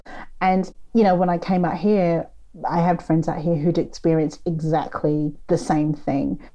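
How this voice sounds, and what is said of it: British accent. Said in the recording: “my accent confuses people... they hear that you're British”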